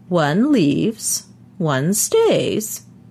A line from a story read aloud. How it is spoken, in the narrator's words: he said in his high, quavery voice